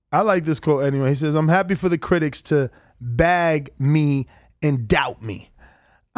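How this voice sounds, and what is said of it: Speaks with a noticeable accent. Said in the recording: “I just love your accent”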